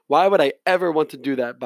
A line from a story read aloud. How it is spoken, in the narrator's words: Baba said curtly